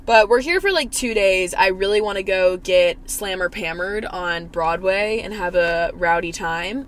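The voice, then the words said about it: Hoarse, strained, failing voice. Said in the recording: “I sound like there's a dick in my throat because I think I'm losing my voice”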